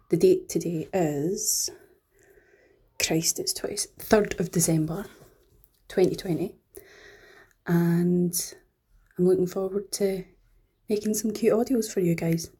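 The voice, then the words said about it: Scottish accent. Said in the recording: “my normal accent, which is this one, Scottish accent”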